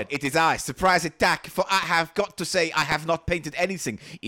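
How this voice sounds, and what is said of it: Ridiculous put-on accent. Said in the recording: “this ridiculous accent”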